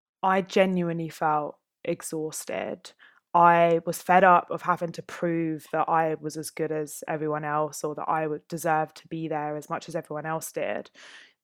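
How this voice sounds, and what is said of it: Essex accent. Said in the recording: “a young black female barrister with an Essex accent”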